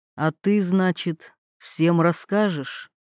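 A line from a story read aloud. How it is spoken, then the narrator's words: Quiet, menacing question. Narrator (Russian): спросил тихо, но так, что обе женщины замерли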